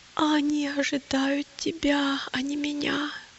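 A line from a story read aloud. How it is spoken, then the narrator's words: Groaning. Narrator (Russian): простонал христианин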